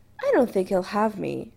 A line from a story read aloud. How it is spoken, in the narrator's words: Adam said cheerfully